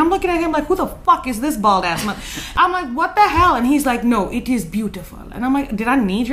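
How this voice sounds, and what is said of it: Usual voice. Nothing is said of it.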